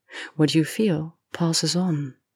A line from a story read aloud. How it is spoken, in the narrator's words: Miranda purred